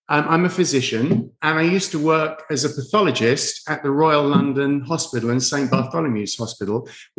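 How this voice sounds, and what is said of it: London English accent. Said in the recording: “I hear a tad bit of an accent ... I do. Yeah, I'm from London.”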